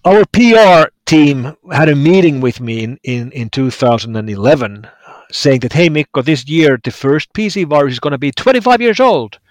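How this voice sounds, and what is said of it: Distinctive Finnish accent. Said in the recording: “That distinctive Finnish accent”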